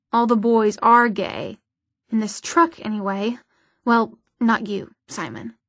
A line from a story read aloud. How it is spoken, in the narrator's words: Isabel snorted